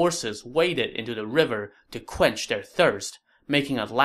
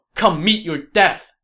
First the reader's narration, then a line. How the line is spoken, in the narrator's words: Zhang Fei shouted